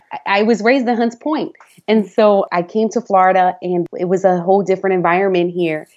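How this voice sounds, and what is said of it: Fast-talking Bronx New York accent. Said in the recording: “I was raised in the Bronx... we have an accent, right? It's just the way it is. We talk really fast. We have an accent.”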